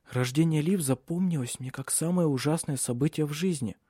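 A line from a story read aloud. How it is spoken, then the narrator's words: Whisper. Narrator (Russian): шепнула она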